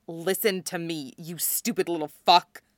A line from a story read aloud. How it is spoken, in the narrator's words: snaps